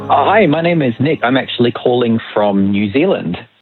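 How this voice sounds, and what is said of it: Mixed Australian New Zealand accent. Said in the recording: “I hear a little accent. ... I have an Aussie Kiwi mixed accent.”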